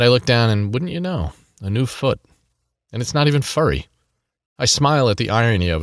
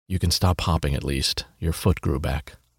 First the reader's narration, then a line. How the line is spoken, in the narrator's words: He whispers